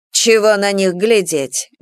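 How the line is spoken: Grumbled. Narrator (Russian): буркнула Анфиса

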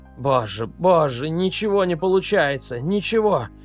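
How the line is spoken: Moaning. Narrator (Russian): простонал он

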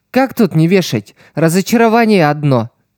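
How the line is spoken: Grumbling. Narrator (Russian): пробурчала та

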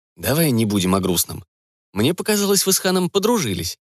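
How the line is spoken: Exaggeratedly cheerful. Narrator (Russian): преувеличенно весело уточнил он

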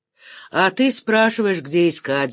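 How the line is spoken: Laughing. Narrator (Russian): засмеялся Саня

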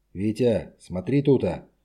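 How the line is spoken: Hoarse, tense voice. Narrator (Russian): Голос командира эскадрильи был хриплый, напряженный

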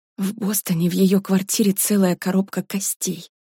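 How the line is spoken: Whisper. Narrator (Russian): прошептала Варя

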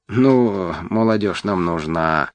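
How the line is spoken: Purring. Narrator (Russian): замурлыкал кот

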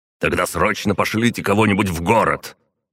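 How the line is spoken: Helpless growl. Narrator (Russian): Артур рычал от собственного бессилия в данной ситуации

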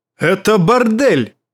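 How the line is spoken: Barked sharply. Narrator (Russian): рявкнул он

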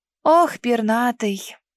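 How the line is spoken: Heavy sigh. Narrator (Russian): Тяжело вздохнув

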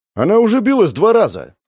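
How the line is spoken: Children shouting over each other. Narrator (Russian): Наперебой закричали ребята

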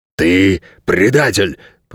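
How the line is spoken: Dog growling. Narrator (Russian): прорычал пес

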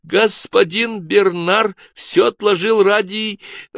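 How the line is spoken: Squeaking. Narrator (Russian): пропищала

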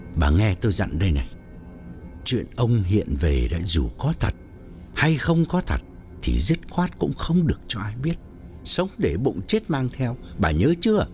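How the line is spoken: Low grave voice. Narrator (Vietnamese): ông hạ giọng nghiêm trọng bảo

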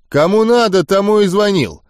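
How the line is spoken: Snapping retort. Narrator (Russian): огрызнулся он

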